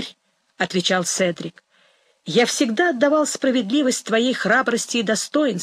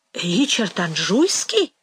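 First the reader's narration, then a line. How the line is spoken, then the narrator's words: Astonished exclamation. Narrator (Russian): воскликнул Седрик, в величайшем изумлении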